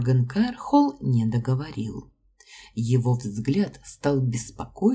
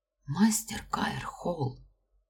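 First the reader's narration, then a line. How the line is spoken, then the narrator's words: Frightened whisper. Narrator (Russian): прошептала я, испуганно оглядевшись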